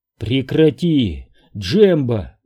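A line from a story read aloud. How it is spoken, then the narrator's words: Strained rasp. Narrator (Russian): с трудом прохрипел Оби-Ван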